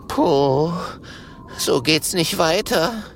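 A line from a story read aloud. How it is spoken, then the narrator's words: Gasping. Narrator (German): japst Kokosnuss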